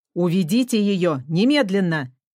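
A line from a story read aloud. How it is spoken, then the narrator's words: Menacing male voice. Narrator (Russian): сказал он грозным голосом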